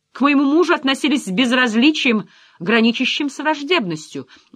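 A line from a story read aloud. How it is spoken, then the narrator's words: Shouting. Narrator (Russian): уже кричала Ариэль Уайлд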